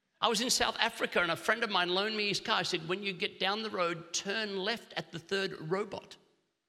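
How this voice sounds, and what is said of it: Australian accent. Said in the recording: “I don't speak English, I speak Australian. It's a form of English.”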